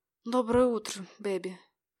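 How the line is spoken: Quiet, sleepy. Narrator (Russian): тихо проговорил он сонным голосом

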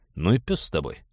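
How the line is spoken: Tired. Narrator (Russian): устало сказал Станислав

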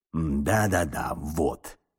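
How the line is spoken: Mumbling. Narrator (Russian): бормотал он

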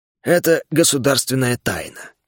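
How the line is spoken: Grumbling mutter. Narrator (Russian): буркнул он

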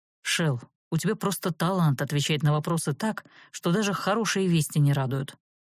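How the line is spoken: Sighing. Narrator (Russian): вздохнул колдун

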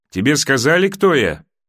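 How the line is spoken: Loud question. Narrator (Russian): красный змей громко спросил

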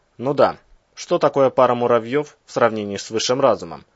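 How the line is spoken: Sarcastic snort. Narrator (Russian): саркастически хмыкнул Иван

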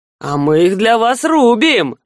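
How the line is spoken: Short chuckle. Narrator (Russian): хохотнул Леваш

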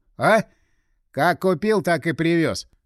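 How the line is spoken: Snorting. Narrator (Russian): фыркнул Игорь

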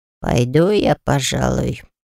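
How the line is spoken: Muttered. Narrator (Russian): пробормотал Альфи

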